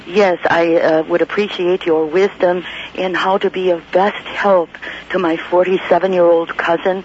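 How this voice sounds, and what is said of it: Hoarse, laryngitis-affected voice. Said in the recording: “A little bit of laryngitis. Hope you can understand me.”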